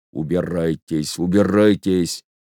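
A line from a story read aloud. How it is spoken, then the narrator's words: Quiet, firm, angry. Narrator (Russian): он говорил тихо, так что отец Сергий не мог слышать его, но говорил решительно и сердито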